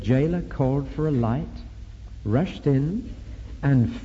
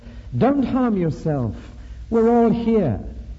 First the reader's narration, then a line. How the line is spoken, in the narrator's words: Paul shouted at the top of his voice